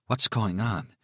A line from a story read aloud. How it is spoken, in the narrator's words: she asked in a strengthless whisper